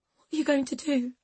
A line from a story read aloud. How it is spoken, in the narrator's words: She whispered, her voice trembling